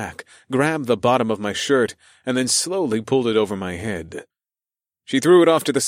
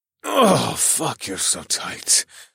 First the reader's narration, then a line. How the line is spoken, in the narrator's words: I moaned as I bit my lip and tried to hold back the Vesuvius building in my cock